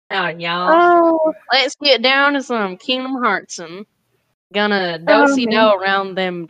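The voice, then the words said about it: Put-on cowboy Southern accent. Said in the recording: “I only do like cowboy-esque accents ... My Little Pony Southern accents”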